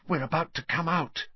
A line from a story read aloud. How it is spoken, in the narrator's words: Hermione breathed